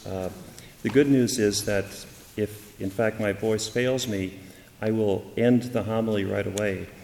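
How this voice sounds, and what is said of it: Hoarse voice. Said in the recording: “my voice is so hoarse.”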